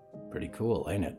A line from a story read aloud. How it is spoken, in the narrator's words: Ralph whispered